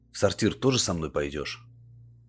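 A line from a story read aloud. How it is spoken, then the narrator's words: Snorting. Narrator (Russian): Фая хмыкнула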